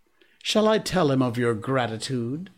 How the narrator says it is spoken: said Tabaki

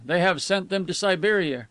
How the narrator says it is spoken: cried others

